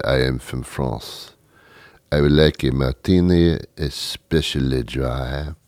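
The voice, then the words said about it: Put-on French accent. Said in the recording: “you put on a phony accent ... fairly decently, not perfectly, but fairly decent ... you do it with a French accent.”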